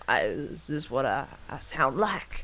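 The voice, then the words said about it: Deep rumbly southern country drawl. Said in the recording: “deep, timbery, like, rumbly southern country drawl”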